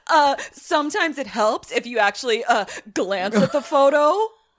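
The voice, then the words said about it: Imitates another person's voice, smartass tone. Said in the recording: “a super Nick Cage smartass ... that was a good impression ... my Nick Cage impression”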